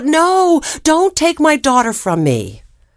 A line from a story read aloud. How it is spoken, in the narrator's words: The mother yelled out